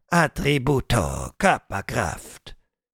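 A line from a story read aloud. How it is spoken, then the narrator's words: Murmured. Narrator (German): murmelte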